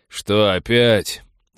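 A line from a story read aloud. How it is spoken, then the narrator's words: Resigned mocking question. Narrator (Russian): обреченно-насмешливо поинтересовался с порога Тед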